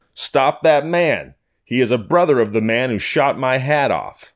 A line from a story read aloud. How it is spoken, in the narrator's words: Detective Arthur shouted to him